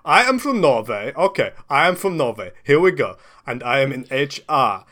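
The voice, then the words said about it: Put-on Norwegian/German-sounding accent. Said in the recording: “I'm going German. Why am I going German? I just do Norway accent ... I'm going German again ... European, continental.”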